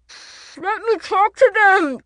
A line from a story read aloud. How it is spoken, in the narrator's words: Juliet yelled, her voice impossibly far away